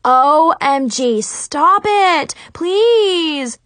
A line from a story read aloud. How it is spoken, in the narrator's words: I screamed over the racket